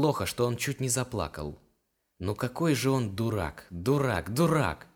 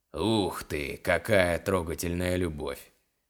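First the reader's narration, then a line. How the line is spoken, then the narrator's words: Man's mocking snort. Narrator (Russian): Хмыкнул мужчина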